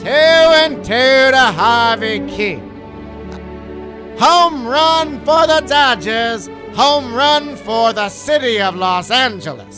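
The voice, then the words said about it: Impression of a baseball play-by-play broadcaster. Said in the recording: “Vin Scully. ... That's not Vin Scully.”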